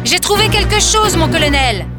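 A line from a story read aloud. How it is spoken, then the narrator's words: Shouted. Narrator (French): cria Dermor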